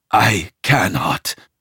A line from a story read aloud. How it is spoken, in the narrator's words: I gasp